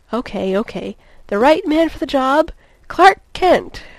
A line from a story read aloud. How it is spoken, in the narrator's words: she cried